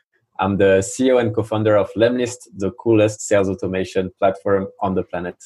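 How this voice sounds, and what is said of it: French accent. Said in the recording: “I'm French, as you can probably hear it from my accent.”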